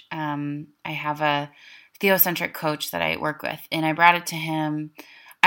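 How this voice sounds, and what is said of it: Intense Minnesota accent. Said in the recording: “I'm speaking with a really intense Minnesota accent right now.”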